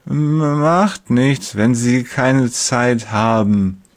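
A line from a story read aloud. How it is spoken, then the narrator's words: Slurred, heavy-tongued. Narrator (German): lallt er mit seiner neuen schweren Zunge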